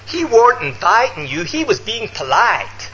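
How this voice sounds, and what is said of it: Imitated Mississippi accent. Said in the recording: “Excuse the accent”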